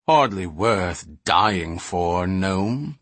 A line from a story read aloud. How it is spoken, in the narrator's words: Panamon growled